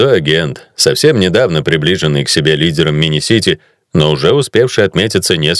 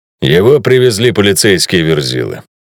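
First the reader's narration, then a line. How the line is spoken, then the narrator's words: Dry telling. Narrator (Russian): сухо поведал между тем хозяин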